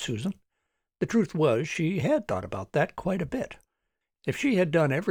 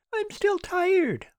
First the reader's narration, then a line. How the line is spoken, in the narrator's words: whined Aaron